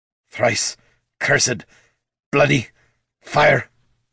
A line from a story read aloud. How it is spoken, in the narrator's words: the dwarf grunted